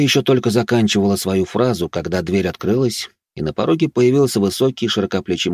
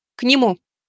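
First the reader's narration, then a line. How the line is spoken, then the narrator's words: Curt. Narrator (Russian): коротко произнесла Мика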